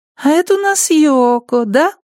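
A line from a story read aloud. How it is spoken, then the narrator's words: High-pitched voice. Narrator (Russian): сказала Киа высоким голосом попугайчику на плече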